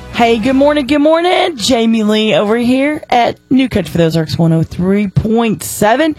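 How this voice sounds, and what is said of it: Strained, worn voice. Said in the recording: “My voice is a little whatever. ... I guess I hollered too much”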